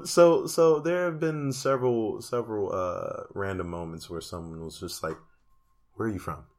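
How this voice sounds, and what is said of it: Prominent foreign accent. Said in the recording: “I didn't think my accent was as prominent as it is”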